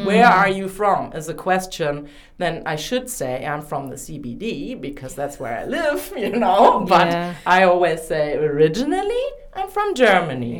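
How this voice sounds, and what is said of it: Strong German accent in English. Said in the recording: “my accent must be so severely strong, which I have been told too ... you try speaking German”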